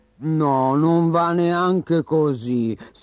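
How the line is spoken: Sighed. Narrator (Italian): sospirò Morris

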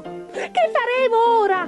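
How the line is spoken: Shrieked. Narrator (Italian): strillò il secondo

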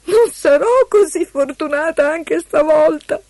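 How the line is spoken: Sobbing. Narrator (Italian): singhiozzò Eloisa

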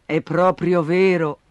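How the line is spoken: Mother sighing. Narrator (Italian): sospirò la mamma

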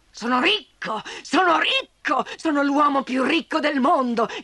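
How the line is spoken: Shouting. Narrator (Italian): gridava

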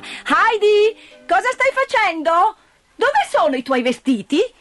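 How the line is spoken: Aunt shouting. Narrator (Italian): la zia che gridava

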